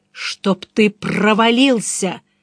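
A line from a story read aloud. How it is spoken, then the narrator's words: Growled. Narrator (Russian): прорычал я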